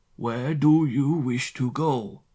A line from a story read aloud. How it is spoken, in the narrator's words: he asked again, this time in French, speaking very slowly and enunciating with care